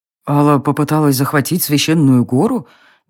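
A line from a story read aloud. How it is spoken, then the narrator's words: Puzzled mutter. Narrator (Russian): недоуменно пробормотал Реверт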